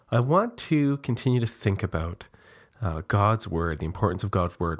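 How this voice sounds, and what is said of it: Congested voice from a cold. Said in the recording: “my voice sounds a little funny today. I'm just getting over a cold.”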